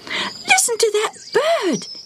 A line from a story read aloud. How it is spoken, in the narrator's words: squealed